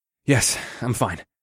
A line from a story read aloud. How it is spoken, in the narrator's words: answered with a heavy sigh